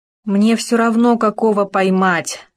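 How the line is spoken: Weary sigh. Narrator (Russian): Устало вздохнул Хома

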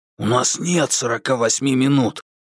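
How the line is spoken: Hissed. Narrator (Russian): прошипел Курц

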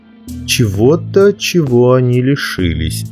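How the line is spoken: Plain. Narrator (Russian): ответил король

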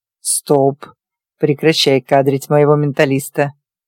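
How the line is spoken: Snarling. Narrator (Russian): Рыкнул Диего

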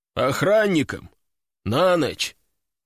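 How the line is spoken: Weary sigh. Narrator (Russian): он устало вздохнул

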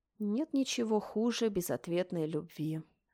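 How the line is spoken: Sighing. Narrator (Russian): вздохнула я

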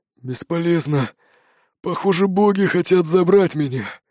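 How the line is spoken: Wheezing rasp. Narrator (Russian): просипел Бродди

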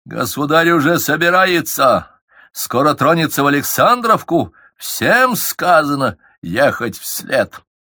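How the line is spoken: Barked shout. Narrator (Russian): Скуратов гаркнул

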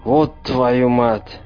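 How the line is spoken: Dismayed, forced out. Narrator (Russian): обескураженно выдавил Ахмед

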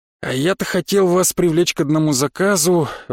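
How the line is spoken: Sigh. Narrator (Russian): вздохнул контрабандист

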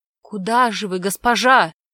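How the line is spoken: Worried merchant's exclamation. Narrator (Russian): воскликнул озабоченно торговец

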